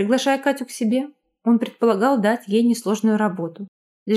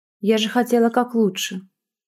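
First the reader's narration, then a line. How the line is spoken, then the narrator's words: Quiet, holding back tears. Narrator (Russian): тихо произнесла Катя, глотая слезы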